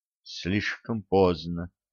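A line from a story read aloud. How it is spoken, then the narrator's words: Whisper. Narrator (Russian): прошептала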